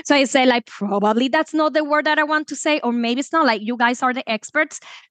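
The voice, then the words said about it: Spanish accent in English. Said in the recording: “you notice my accent, Spanish is my first language”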